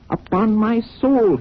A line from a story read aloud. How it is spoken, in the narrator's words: he cried